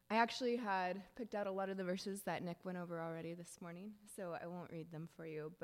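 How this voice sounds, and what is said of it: Strained, fading voice. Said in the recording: “I apologize if I start coughing. I think I'm losing my voice today”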